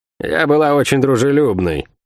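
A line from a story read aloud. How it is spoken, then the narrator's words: Gloomy reply. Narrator (Russian): мрачно ответила ему Лавиани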